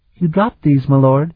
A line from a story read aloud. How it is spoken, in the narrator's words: she said sweetly